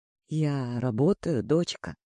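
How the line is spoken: Calm. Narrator (Russian): отвечаю спокойно

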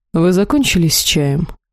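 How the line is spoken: Dry question. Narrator (Russian): сухо спросил господин Элохар

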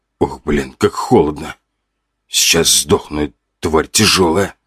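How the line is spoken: Grunting and groaning people. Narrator (Russian): Люди кряхтели и стонали

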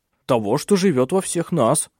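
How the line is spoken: Curt, irritated. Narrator (Russian): уже раздраженно бросил Клаус

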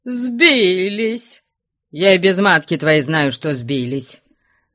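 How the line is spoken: Mocking, annoyed. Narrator (Russian): насмешливо с досадой отвечал Потап Максимыч

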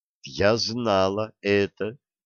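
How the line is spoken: Calm. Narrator (Russian): спокойно сказала Бьюла

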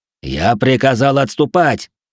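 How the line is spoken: Angry guard shouting. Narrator (Russian): гневно крикнул стражник

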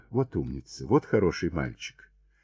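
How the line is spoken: Affectionate coaxing. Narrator (Russian): Кристина ласково приговаривала

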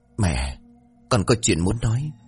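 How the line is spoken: Soft, trembling call. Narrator (Vietnamese): Anh khẽ hò đi một tiếng, bước vào run rẩy

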